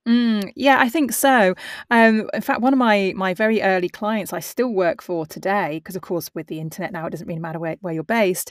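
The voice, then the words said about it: Non-American accent. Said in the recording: “I think it's the coolest accent to me ... a outsider's, you know, voice”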